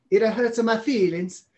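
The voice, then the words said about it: Put-on Italian accent. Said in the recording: “why did I just go to Italian?”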